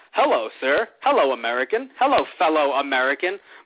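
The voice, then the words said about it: Sheamus in a put-on American voice. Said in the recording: “that's an accent. That's just an accent. Like backstage, Sheamus is like”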